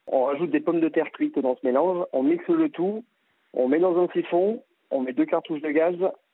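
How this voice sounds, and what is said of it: Slight regional French accent. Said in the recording (French): “vous avez un petit accent qui n'est pas forcément du Calvados? ... Moi, je suis louvérien d'origine.”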